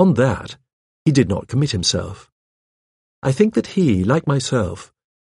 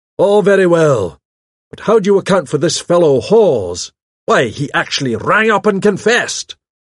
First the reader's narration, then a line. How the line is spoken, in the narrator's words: barked out